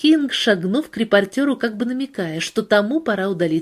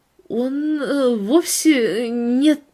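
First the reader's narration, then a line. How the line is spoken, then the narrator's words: Stammering. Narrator (Russian): запинаясь, начала Пейтон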